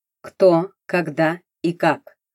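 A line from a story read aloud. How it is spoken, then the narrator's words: Slow repetition. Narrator (Russian): снова медленно повторил Суворов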